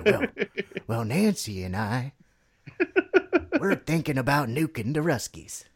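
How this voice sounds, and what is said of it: Imitates another person's voice. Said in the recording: “I lost my Reagan impression very quickly there”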